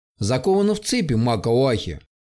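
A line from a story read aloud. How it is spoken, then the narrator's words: Plain. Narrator (Russian): ответил Гругус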